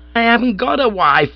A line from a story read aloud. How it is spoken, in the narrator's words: I yelled